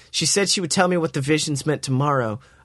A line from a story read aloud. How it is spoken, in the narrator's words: I grumbled in a sexy voice